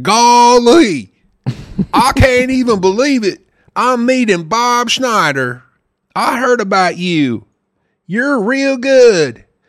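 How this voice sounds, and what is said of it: Exaggerated Southern accent impression. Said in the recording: “he had the most serious accent I've ever heard in my life. He sounded exactly like Gomer Pyle ... you got the craziest accent of all time”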